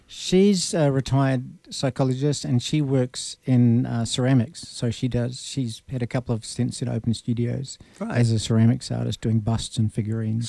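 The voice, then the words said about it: New Zealand accent. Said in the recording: “I can tell by your accent that you didn't grow up in this region ... I was born in New Zealand.”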